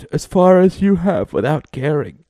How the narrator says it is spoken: she yawned

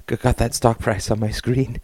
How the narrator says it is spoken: said Terry, his voice silver with tense glee

